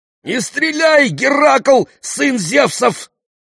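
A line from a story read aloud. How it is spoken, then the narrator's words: Panicked yell. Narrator (Russian): заорал в некоторой панике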